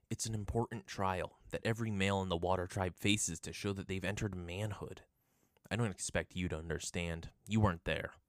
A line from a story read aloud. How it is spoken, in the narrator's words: he said coldly